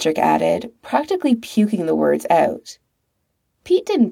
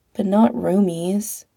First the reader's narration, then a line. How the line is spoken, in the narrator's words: Pete said sadly